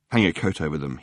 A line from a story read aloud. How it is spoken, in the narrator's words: he muttered to Fenchurch